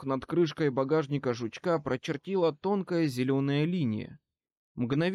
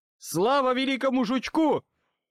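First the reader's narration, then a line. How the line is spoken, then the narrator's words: Yell. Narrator (Russian): заорал я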